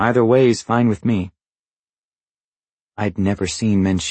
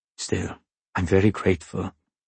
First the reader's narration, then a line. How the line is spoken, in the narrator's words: Manshiki said quietly